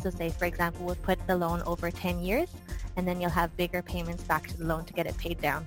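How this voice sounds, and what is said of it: Scottish accent. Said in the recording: “Love that Scottish accent.”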